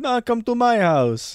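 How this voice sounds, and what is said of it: Put-on Arabic accent. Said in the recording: “I don't know why he has an Arabic accent.”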